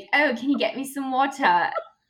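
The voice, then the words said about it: Put-on British accent. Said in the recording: “talk in a British accent ... go speak in a British accent”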